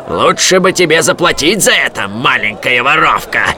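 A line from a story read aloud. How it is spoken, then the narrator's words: Growl. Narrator (Russian): прорычал он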